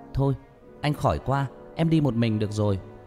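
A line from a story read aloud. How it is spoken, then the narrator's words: Shouting. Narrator (Vietnamese): Hét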